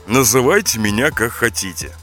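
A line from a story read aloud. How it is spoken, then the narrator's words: Calm. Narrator (Russian): спокойно ответил Роза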